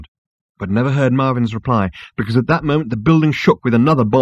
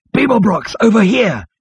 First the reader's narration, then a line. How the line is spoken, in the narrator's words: he shouted